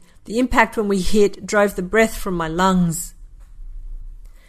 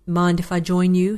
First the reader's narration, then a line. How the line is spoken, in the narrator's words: he asked